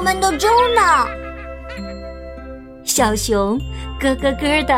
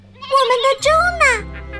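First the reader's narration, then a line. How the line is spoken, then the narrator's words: Animals shouting together. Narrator (Chinese): 小动物们一齐在喊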